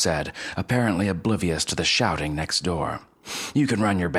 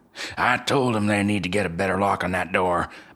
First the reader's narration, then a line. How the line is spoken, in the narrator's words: Bob grumbled